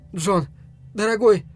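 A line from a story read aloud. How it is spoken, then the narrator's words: Fawningly tender exclamation. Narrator (Russian): воскликнула жена, заискивающей нежностью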